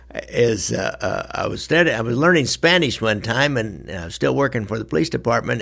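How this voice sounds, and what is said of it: Northwest Missouri nasal twang. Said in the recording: “my hillbilly accent here, my Northwest Missouri nasal twang.”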